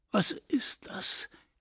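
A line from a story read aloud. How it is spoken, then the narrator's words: Croaking on held breath. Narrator (German): krächzte ich mit der Luft, die ich anweisungsgemäß geholt hatte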